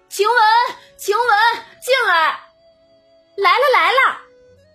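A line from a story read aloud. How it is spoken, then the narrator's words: Calling out. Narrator (Chinese): 宝玉马上对外喊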